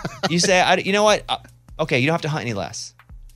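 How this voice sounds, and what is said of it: Usual voice. Nothing is said of it.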